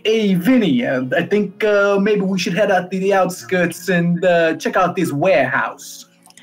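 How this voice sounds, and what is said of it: Noir detective style accent. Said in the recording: “I just kind of felt this noir vibe going on, so I slipped into this accent.”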